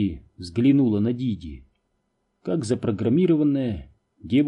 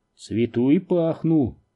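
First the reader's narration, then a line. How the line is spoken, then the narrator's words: Gloomy. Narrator (Russian): мрачно произнесла она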